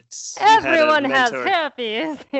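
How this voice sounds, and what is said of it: Put-on accent. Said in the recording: “a good accent.”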